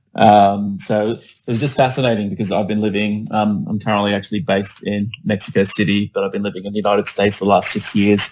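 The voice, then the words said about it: Australian accent. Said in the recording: “if you can't tell by my accent, it is not a head cold. I am a legitimate Australian.”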